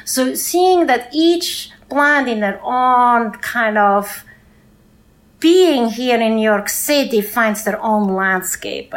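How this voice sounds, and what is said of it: Swiss accent in English. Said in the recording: “As you guys can hear, I have an accent. I'm originally from Switzerland”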